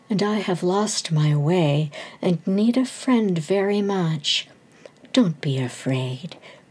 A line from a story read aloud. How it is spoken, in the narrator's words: the stranger said kindly